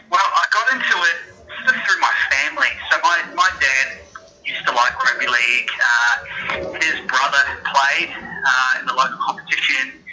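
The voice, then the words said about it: Slight New Zealand accent. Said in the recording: “you've got a bit of a Kiwi accent there”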